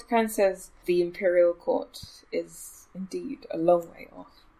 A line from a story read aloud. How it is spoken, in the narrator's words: Kynes muttered